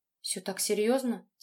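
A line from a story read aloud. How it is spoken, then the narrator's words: Quiet question. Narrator (Russian): тихо спросила Тоня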